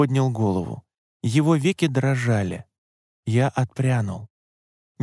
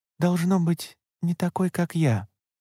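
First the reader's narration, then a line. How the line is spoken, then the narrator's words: Gentle interjection. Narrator (Russian): мягко вмешалась Асукай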